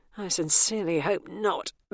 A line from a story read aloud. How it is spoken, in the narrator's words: Bernice groaned